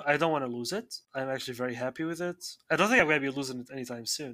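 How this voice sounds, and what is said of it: Non-native English accent. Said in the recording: “my accent... I have the same accent from when I began speaking”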